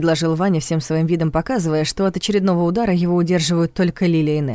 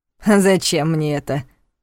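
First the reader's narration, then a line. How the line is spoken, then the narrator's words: Mocking, unafraid. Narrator (Russian): насмешливо уточнил пленник, демонстрируя, что не боится угроз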